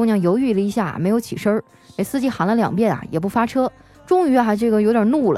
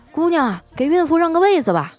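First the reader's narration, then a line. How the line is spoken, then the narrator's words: Driver shouting. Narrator (Chinese): 司机喊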